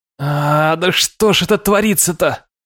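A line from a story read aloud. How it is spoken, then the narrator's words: Helpless groan. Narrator (Russian): От бессилия я застонал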